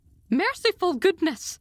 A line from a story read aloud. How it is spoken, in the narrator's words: There was a gasp and a cry, and somebody said in a muffled accent